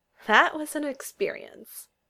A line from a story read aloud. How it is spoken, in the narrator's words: Lizzie said with a laugh